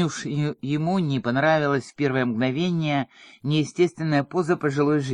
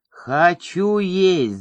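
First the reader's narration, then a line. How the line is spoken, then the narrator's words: Loud obnoxious yell. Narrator (Russian): заорал громким противным голосом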